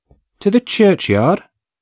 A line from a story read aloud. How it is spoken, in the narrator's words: I answered in a little timid voice